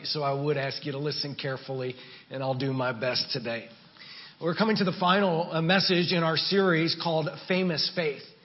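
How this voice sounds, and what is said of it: Weak, tired voice. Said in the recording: “my voice is a little weak this morning”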